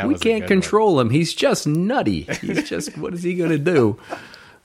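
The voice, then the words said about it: Put-on mafia gangster accent. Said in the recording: “my mafia guy accent ... Yeah, that was good. ... Pretty good.”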